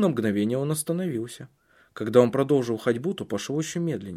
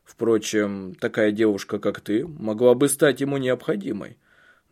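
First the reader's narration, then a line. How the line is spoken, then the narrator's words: Dry. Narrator (Russian): добавил он сухо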